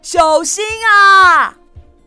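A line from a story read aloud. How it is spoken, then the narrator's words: Shouted. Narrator (Chinese): 他叫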